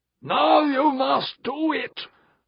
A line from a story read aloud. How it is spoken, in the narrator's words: roared the voice